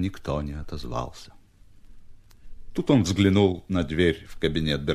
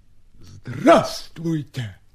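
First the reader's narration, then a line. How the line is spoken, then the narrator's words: Barking voice inside head. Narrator (Russian): рявкнул кто-то в голове у Степы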